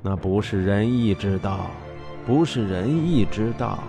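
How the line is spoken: Muttering. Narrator (Chinese): 宋襄公喃喃说

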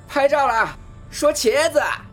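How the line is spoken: Loud shout. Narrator (Chinese): 他对着灵兽大喊一声

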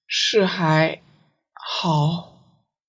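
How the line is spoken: Soft, hesitant, reminiscent. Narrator (Chinese): 魔君大概是想到了十分久远的事，过了好半天，才轻声道

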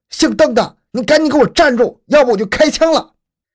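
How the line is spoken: Sudden loud shout. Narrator (Chinese): 罗文稍一犹豫之后，突然大喊一声

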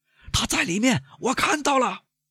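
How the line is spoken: Shout from stairway landing. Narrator (Chinese): 楼梯平台上有个声音喊道

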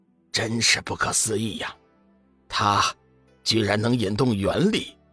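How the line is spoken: Hushed astonishment. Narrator (Chinese): 仙使低声惊讶道

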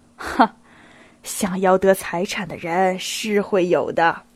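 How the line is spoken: Low aside. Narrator (Chinese): 他低声加了一句

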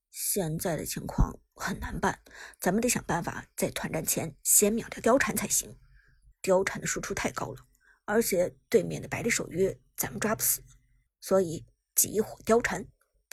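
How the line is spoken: Deep serious voice. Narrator (Chinese): 苏哲沉声说道

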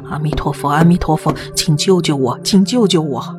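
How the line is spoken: Distant, unseen voice. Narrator (Chinese): 那个声音不知道从哪里传了过来

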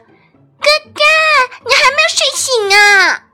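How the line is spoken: Calling out. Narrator (Chinese): 妹妹阿玉一路喊着

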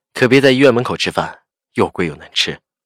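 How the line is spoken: Smiling. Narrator (Chinese): 夏医生笑着说

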